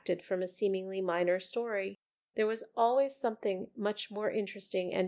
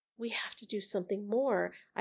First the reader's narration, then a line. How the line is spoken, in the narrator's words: I whispered to Mayor 2437